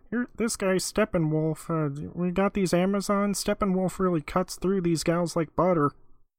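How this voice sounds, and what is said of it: Imitated voice sounding like Kermit. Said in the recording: “Why is Kermit doing a George Lucas impression? ... Because it just sounds like Kermit. ... Kind of sounds like Kermit. ... You're just doing a Kermit”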